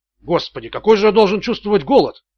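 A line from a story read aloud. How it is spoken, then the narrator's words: Grumbling. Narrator (Russian): проворчал Ричард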